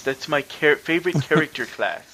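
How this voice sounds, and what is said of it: Nerdy put-on voice. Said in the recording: “insert nerd voice.”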